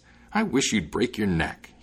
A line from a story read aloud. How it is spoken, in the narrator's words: he exclaimed